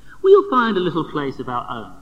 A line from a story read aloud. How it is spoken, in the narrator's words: says Jean excitedly